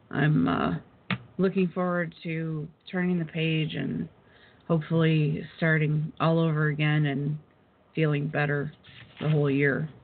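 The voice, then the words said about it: Hoarse, fading voice. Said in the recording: “excuse me as I lose my voice”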